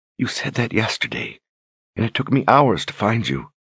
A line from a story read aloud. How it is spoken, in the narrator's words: whispered